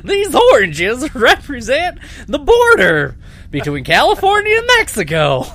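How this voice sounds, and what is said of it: Imitates another person's voice. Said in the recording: “Gallagher's sitting there, he's like, perfect! ... And he also sounds like Huell Hauser, apparently. ... Was that a good impression? ... You nailed it.”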